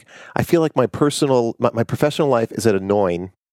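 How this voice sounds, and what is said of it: Imitated Long Island accent. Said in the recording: “that's how he says it in his Long Island accent.”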